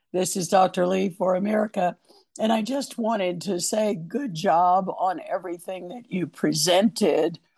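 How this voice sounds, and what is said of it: Strained, poor-sounding voice. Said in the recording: “As our listeners can tell, my voice is terrible.”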